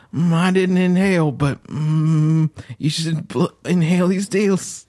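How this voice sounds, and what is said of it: Imitates another person's voice. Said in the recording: “Bill Clinton is high. I'm going to try to just leap in.”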